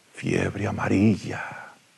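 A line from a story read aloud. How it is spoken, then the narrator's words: Shaken, strained whisper. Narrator (Spanish): Entre ingentes esfuerzos por recuperarse de la impresión, Pereira susurró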